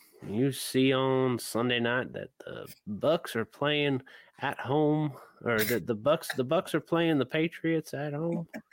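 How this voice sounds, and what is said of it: Put-on Southern US accent. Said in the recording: “I like your Southern accent.”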